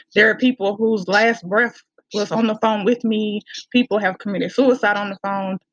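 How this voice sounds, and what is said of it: Country accent. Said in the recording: “my country little accent ... it's actually a very pleasant accent”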